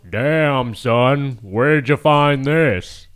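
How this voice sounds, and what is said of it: Imitates another person's voice. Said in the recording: “Did I do a good impression? ... tell me that's McLovin ... that was good”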